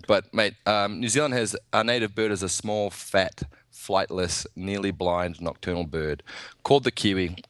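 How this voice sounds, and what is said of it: New Zealand accent. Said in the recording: “I'm from New Zealand, obviously, which probably explains why, you know, you sound different to to how I do”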